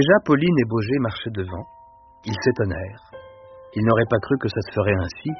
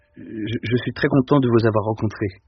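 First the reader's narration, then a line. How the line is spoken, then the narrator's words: Stammered hesitantly. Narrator (French): finit par balbutier Deloche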